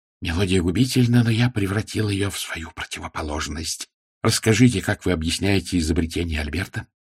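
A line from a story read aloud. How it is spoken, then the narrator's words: Whisper. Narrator (Russian): он прошептал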